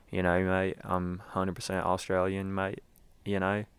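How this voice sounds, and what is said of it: Poor put-on Australian accent. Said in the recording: “that is my Australian accent that I hide all the time ... Presley said it's the worst one she's ever heard”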